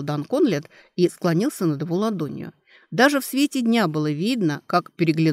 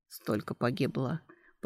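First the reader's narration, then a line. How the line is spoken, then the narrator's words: Whispered. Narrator (Russian): прошептал Дан Ристард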